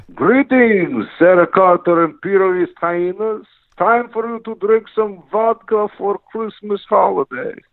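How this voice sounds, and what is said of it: Comic Russian accent, Dracula-like. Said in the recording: “Russian accent ... It sounds a little like Count Dracula sometimes”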